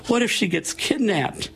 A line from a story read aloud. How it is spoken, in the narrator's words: She whimpered